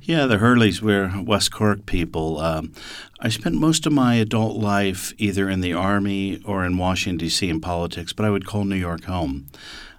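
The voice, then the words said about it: Slight American accent. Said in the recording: “you've still got a bit of an American accent.”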